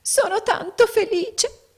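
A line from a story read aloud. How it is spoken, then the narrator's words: Small woman sobbing. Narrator (Italian): singhiozzò la piccola donna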